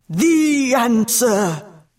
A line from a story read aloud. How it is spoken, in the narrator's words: bellowed the Finx